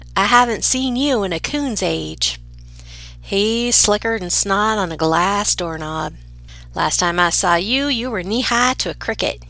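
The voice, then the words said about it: Put-on Southern US accent. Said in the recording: “I'm going to invoke a Southern accent because I feel like it really imparts much more of the meaning of the saying.”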